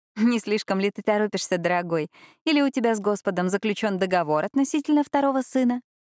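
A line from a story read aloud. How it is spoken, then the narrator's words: Merry laughter. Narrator (Russian): весело рассмеялась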